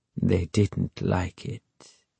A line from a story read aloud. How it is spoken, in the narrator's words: he added quietly